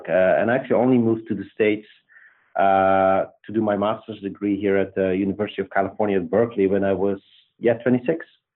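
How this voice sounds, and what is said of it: Belgian accent. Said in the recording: “you will hear this quickly. My accent is Belgian.”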